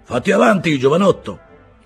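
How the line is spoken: Shouting. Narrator (Italian): gridò Silver

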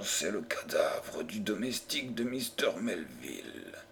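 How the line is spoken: Murmured. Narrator (French): murmura-t-il

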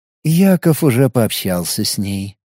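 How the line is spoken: Soft. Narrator (Russian): мягко произнес Наиль

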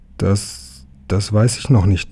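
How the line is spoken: Stuttering. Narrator (German): stotterte Emil

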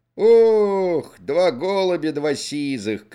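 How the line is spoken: Shouting. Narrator (Russian): крикнул Ермошка

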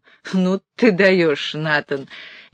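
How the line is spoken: Laughing. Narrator (Russian): я Эль засмеялась

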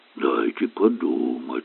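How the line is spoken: Mutter. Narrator (Russian): пробормотал Айшем

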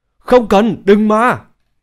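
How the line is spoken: Terrified screaming. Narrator (Vietnamese): Thôn dân gào lên sợ hãi

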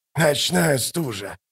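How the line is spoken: Mumbling. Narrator (Russian): пробормотал

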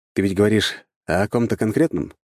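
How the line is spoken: Plain question. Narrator (Russian): спросил я

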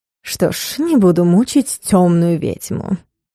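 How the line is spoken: Lady's sugary purr. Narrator (Russian): слащаво мурлыкнула дама

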